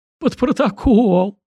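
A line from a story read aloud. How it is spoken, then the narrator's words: Murderer whining. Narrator (Russian): скулил душегуб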